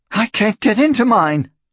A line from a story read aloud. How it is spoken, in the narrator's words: she gasped